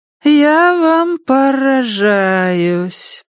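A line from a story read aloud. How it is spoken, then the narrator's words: Drawling colleague. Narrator (Russian): протянула сослуживица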